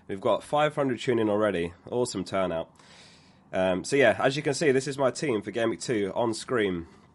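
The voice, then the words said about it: Slightly hoarse, partly lost voice. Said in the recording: “I've lost my voice a little bit. I went out last night”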